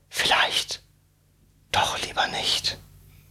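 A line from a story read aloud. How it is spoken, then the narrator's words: Whispered to himself. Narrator (German): flüsterte er vor sich hin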